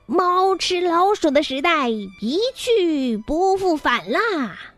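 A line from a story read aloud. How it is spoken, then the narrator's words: Loud roaring. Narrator (Chinese): 他大声吼叫着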